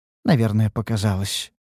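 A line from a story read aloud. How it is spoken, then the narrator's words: Sighing. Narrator (Russian): вздохнула ученица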